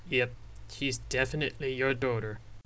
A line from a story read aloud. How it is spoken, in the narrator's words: Sullen said, followed by some more light-hearted laughter